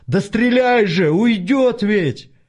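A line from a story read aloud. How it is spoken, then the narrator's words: Desperate full-force yell. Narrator (Russian): Артем, не выдержав, заорал, что было сил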